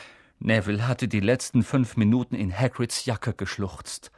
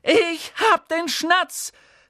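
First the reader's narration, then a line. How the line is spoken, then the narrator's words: Called out. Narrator (German): rief er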